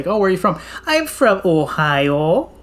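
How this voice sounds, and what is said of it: Exaggerated nasal Midwestern accent. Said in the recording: “Midwesterners sound like they have their nose, like, plugged up ... it sounds nasally ... not as exaggerated as I just did”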